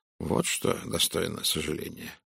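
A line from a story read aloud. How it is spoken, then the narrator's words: Muttering. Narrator (Russian): пробормотал Пуаро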